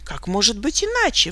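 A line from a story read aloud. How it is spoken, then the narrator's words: Reproachful exclamation. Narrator (Russian): воскликнул с упреком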